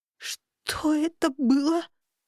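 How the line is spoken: Hoarse astonished frightened whisper. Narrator (Russian): выдохнула я хриплым от изумления и страха шепотом

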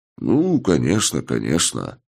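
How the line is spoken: Muttered. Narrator (Russian): пробормотал я

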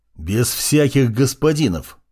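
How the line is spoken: Teacher's growl. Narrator (Russian): рыкнул учитель

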